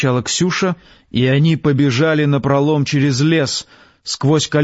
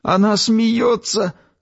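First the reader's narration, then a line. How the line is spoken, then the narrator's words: Tearful shout. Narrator (Russian): сквозь слезы закричал Ромка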